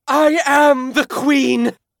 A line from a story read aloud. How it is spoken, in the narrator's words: Leah cried